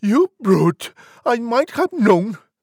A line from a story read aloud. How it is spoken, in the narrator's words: Pig cried